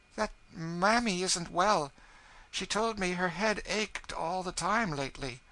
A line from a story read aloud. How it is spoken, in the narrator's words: she said timidly